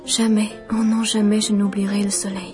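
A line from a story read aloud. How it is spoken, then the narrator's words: Softly repeating. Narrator (French): Elle ne cessait de répéter tout bas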